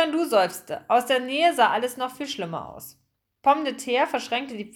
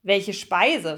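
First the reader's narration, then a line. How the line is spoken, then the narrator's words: Plain question. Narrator (German): fragte Pikandu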